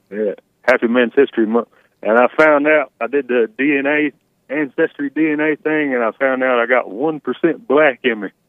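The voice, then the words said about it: Southern American male accent. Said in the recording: “you have a scary accent. I guess she's scared of southern white men.”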